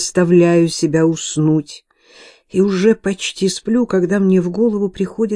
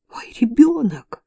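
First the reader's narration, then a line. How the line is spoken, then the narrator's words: Exclamation with moaning. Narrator (Russian): воскликнула и застонала, когда схватки стали сильнее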